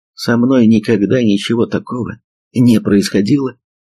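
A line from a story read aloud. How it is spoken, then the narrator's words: Sighing. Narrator (Russian): вздохнула Сан Мун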